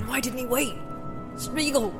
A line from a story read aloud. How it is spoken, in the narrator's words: said Frodo, trying to call, but his voice croaked, and the name fell dead almost as it left his lips